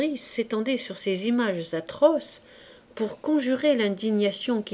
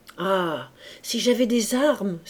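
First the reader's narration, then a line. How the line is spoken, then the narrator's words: Crying out. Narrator (French): s'écria Fabrice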